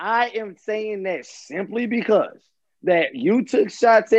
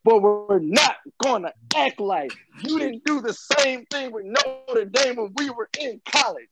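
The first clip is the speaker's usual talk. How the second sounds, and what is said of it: Imitates another person's voice. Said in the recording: “I'm gonna do my Lamoris impression.”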